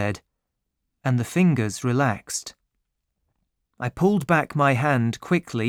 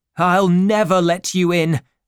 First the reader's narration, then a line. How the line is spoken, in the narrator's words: shouted